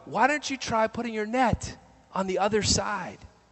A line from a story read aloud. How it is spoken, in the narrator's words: somebody yells out